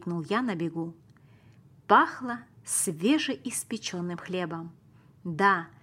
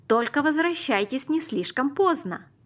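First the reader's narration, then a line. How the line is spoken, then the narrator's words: Mother calling out after. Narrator (Russian): крикнула мама нам вслед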